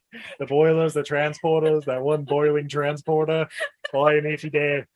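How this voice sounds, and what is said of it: Put-on Irish accent. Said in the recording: “That's my Irish accent? I don't know.”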